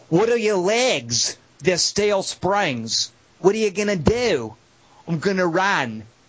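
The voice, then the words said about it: Put-on Australian accent. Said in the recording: “an accent ... my Australian accent”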